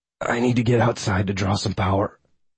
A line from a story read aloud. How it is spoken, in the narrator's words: whispered